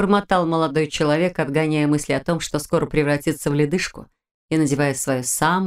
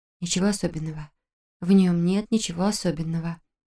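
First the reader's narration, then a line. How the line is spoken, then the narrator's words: Self-soothing whisper. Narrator (Russian): прошептала Камила, сама себя успокаивая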